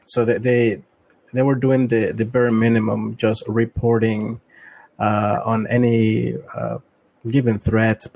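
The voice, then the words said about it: Latin American-influenced English accent. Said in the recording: “I have a lot of experience experience living in in Latin America, as you can tell by my accent.”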